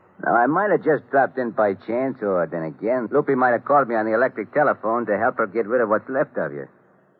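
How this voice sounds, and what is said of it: Tough guy New York accent. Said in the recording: “with the New York accent.”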